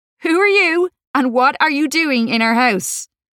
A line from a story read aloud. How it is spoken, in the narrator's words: Laura said, trying not to laugh